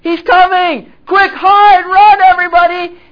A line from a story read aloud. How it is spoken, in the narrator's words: all together start running into the city screaming